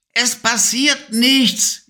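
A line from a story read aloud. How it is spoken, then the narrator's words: Whining. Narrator (German): jammerte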